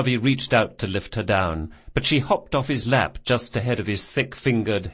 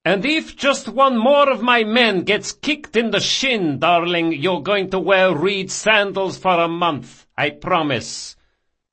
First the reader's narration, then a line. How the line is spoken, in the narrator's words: Barsavi shouted after her